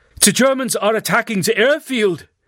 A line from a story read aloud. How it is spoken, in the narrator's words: Andrew's father said in his booming voice